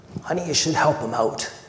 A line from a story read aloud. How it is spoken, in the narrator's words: Darlene whispered